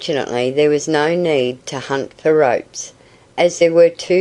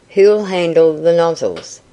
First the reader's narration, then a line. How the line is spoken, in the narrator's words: asked the farmer